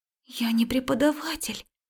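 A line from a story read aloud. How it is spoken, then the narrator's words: Frightened whisper. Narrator (Russian): шепнула испуганная Марика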